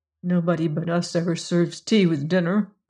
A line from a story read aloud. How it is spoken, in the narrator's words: Margaret muttered